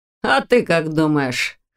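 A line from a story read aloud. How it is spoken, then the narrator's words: Snorting. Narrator (Russian): хмыкнул Ваня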